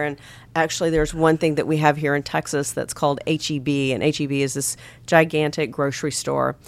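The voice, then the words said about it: Thick, lower allergy-affected voice. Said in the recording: “we're both suffering from this pollen allergy stuff ... my voice is a little... A little thicker, a little lower, and that is the oak pollen”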